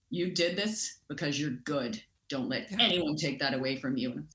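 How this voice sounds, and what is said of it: Deep booming imitated male voice. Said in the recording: “his deep voice ... in his big booming voice.”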